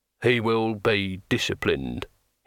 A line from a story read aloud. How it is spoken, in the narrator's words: said flatly